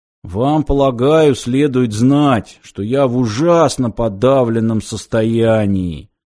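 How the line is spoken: Muffled, dull voice. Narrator (Russian): глухо произнес он

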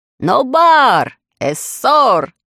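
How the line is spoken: Shout. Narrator (Russian): закричал

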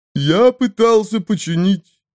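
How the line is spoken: High trumpeting voice. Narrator (Russian): сказал он высоким трубным голосом

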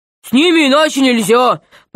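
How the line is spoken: Troll's growl. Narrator (Russian): прорычал тролль

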